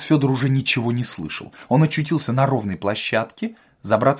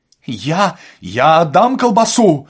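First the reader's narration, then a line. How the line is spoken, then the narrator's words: Shouted. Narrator (Russian): закричал отец Федор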